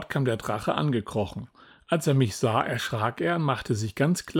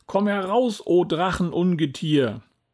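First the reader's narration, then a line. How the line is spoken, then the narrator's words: Brave call. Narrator (German): Mutig rief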